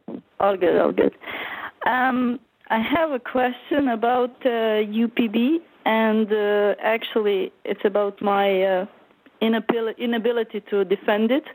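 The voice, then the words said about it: Eastern European accent. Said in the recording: “the Eastern European with a weird accent”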